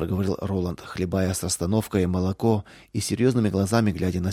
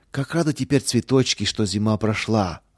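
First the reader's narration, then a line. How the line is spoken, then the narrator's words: Joyful echo. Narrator (Russian): радостно вторила ему Лидия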